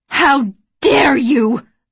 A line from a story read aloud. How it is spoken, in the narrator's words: I screamed